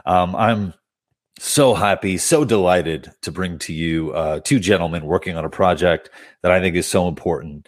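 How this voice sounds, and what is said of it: Congested, cold-sounding voice. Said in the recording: “my apologies for the way I sound right now. I don't know if this is allergies, or if I have a cold,”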